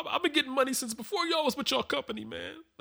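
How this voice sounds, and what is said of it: Tearful crying impression of DJ Akademiks. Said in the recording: “crying on Xbox ... Man, I'm getting a little emotional.”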